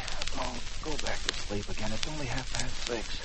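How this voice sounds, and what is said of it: Whispering. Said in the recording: “Stop whispering.”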